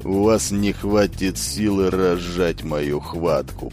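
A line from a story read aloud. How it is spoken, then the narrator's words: Grumble from mouth corner. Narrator (Russian): проворчал Батари уголком рта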